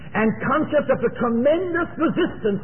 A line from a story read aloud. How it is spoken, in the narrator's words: he cried